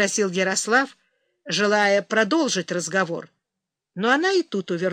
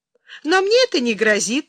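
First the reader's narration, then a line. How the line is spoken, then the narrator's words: Laughing. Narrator (Russian): засмеялась Юлия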